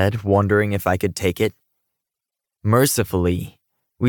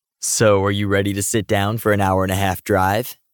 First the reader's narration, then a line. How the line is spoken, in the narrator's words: asked teasingly